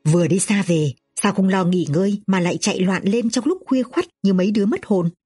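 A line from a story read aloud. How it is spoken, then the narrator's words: Surprised question. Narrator (Vietnamese): Hình phu nhân kinh ngạc hỏi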